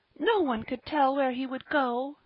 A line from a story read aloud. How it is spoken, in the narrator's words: cried Polly